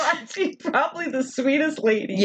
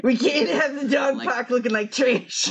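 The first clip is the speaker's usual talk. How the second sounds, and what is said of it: Weird put-on character voice with accent. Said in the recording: “I like the weird voice you're giving her. ... that accent”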